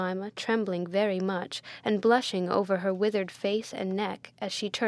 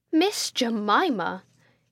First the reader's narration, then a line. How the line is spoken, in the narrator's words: exclaimed Miss Pinkerton, in the largest capitals